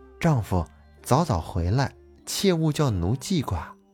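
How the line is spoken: Gentle instruction. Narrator (Chinese): 白娘子温柔地吩咐了一声，说

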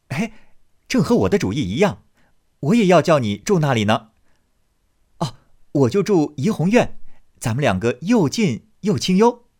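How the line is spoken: Laughing delightedly. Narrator (Chinese): 宝玉听了，拍手笑道

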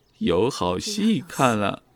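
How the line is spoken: Laughing. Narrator (Chinese): 高笑颜笑着说道

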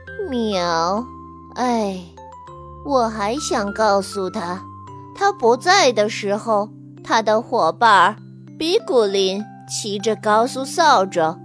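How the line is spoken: Sighing. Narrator (Chinese): 猫咪巴嘎叹息道

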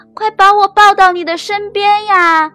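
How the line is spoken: Frog calling loudly. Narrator (Chinese): 青蛙大声的叫

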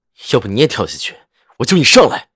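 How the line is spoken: Cold, livid. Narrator (Chinese): 赵世南铁青着脸，冷声道

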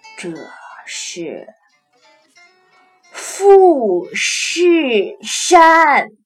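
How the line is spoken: Strange, drawn-out, slow. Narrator (Chinese): 大姐奇怪的拖长了调子，缓缓的说道

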